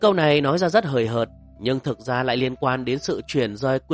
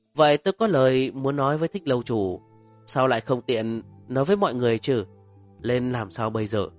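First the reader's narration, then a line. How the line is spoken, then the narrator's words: Distant sigh. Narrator (Vietnamese): Lôi Thuần thở dài một tiếng xa xăm nói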